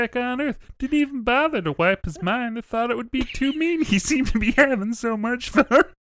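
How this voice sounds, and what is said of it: Wacky old-timey Gomer Pyle-like voice. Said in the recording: “a mix of Gomer Pyle and some other person you might have heard in some other old-timey show ... do a wacky voice”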